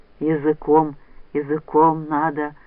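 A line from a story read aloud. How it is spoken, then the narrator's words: Hoarse wheeze. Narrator (Russian): прохрипел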